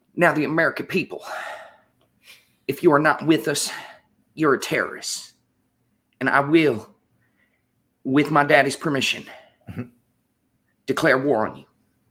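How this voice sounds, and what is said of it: George W. Bush impression. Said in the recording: “I can actually do a perfect Bush impersonation ... Oh my gosh, that was pretty good.”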